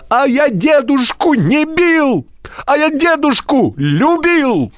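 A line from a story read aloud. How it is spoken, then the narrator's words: Shouted. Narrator (Russian): закричал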